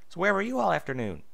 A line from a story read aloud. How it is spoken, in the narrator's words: Applejack smiled nervously and tried not to look suspicious